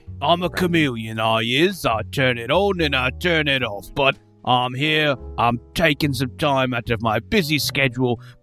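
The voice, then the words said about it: Put-on British accent. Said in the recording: “me signature British accent ... I've probably got a British accent”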